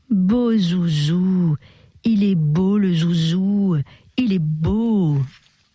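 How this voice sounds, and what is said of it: Exaggerated baby talk voice. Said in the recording (French): “une exaspérante imitation du parler enfantin”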